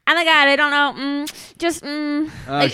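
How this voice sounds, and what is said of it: Valley girl voice impression. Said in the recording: “this is my best impression of what she does, and it's terrible. ... She's a valley girl. ... the valley girl”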